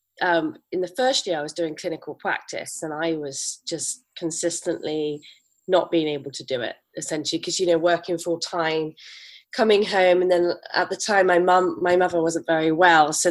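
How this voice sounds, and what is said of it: English Bristol accent with twang. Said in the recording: “I'm actually from England, as you could probably tell. But my accent's got a bit of a twang to it now ... I'm from Bristol in England, and I usually sound a little bit farmery”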